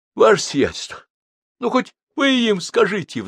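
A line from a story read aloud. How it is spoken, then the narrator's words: Pleading. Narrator (Russian): взмолился он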